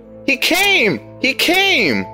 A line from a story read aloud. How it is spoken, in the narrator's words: shrieked a girl